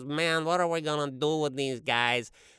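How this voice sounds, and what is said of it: Cartoon weasel gangster sidekick voice. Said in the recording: “I thought I could kind of do the voice of one of those weasels ... the gangster's sidekick, the bad guy's sidekick”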